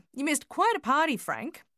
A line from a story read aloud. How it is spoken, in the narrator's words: she called out to him